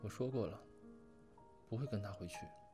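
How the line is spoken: Quiet. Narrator (Chinese): 小声说

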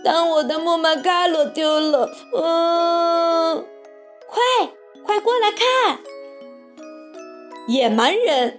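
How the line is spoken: Sobbing. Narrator (Chinese): 他又痛哭流涕

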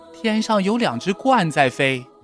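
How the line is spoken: Excited shout. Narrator (Chinese): 蹦蹦兴奋地喊道

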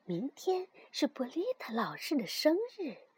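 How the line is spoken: Hushed whisper. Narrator (Chinese): 有个老师把手指放在嘴边，轻声地说

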